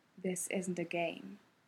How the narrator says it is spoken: Kakashi warned softly

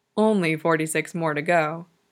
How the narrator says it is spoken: he murmured

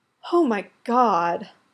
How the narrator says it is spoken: Stiles gasps

